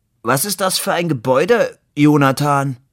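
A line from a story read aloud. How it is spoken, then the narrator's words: Sudden, very loud. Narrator (German): Plötzlich fragte Labude sehr laut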